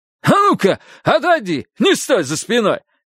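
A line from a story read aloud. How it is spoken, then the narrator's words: Barked. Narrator (Russian): рявкнул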